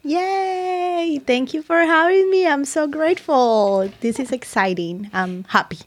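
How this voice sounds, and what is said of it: Speaks with a noticeable accent. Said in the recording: “She has a beautiful accent.”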